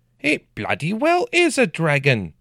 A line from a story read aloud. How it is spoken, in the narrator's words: he shouted, spittle flying from his lips